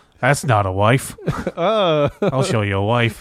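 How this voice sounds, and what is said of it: Impression of a film character. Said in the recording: “my impression of Crocodile Dundee”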